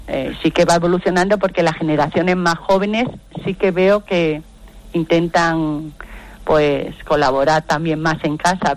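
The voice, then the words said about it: Andalusian Spanish accent. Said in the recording (Spanish): “por tu acento, ... ¿extremeña, murciana, andaluza o canaria? ... Andaluza, correcto. ... Todavía te queda un deje por ahí que te delata”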